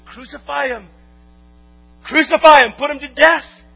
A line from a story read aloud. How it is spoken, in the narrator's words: Their screams of